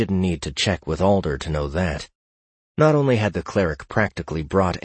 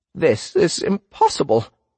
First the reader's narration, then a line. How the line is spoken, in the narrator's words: young Ivan said, his voice shaking